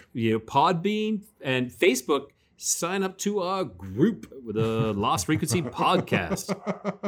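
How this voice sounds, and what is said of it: Upbeat radio announcer voice. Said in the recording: “You sound like a motivational speaker for like a cupcake company. ... That's my radio voice, kind of radio announcer.”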